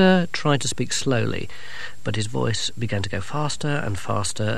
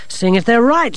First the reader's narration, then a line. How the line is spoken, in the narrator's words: snapped